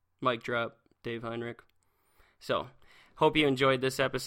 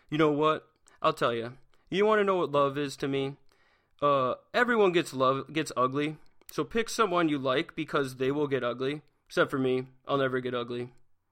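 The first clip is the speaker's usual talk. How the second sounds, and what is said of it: Imitates another person's voice. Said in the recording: “I'm going to do my Dave voice.”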